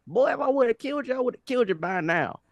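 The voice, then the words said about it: Put-on very southern accent. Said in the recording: “Speaking a very southern accent.”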